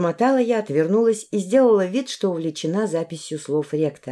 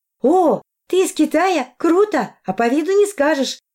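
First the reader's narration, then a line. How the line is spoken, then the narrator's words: Exclamation. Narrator (Russian): воскликнула Арина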